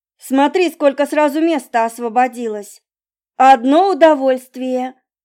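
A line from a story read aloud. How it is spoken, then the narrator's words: Exclaiming. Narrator (Russian): воскликнула тетя Мила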